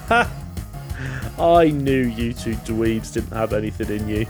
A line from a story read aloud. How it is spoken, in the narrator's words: laughs and's like